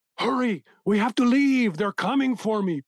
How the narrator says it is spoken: Pedro shouted to his wife

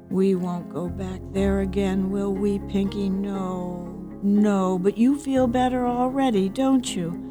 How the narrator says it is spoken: cooed, saying

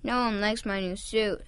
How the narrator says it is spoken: Santa said sadly

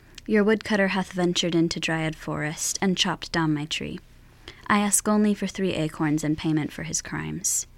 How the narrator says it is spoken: The girl took a deep breath and said calmly

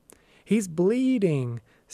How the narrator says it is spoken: Sarah screamed

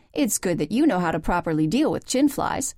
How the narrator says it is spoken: said Elizabeth pertly

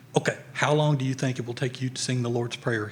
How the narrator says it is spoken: he whispered

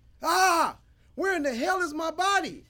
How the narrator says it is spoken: He shouted

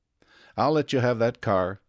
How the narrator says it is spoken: said Tom

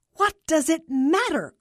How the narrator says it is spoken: Carla exclaimed

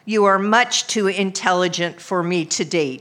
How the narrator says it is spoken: he said

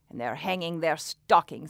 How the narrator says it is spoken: he snarled with a sneer

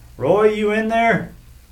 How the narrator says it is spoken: He hollered in the direction of a cinder block garage behind the house

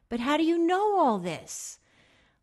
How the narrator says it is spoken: I shouted

